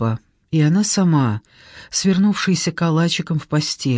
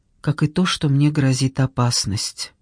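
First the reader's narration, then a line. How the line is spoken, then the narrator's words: Quiet after a pause. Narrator (Russian): Она помолчала и тихо добавила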